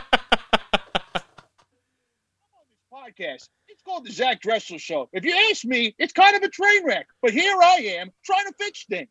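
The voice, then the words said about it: Imitates another person's voice. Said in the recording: “You do a very good John Taffer impersonation.”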